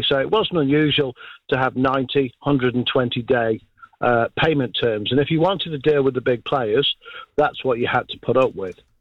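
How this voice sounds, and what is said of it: British accent. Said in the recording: “a portion of my life was spent in the UK, as you can tell by the accent.”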